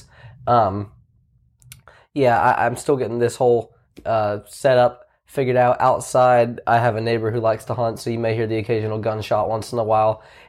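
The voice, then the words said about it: Voice sounds off from illness. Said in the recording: “my voice isn't quite right. I'm still recovering from a sickness.”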